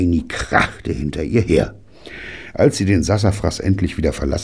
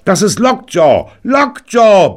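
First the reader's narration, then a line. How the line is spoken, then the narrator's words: Bellowing. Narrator (German): brüllte Tiny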